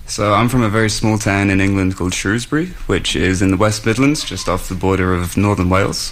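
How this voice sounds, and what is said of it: Slight British English accent. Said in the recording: “you have a little bit of an accent. Guessing you're from the UK.”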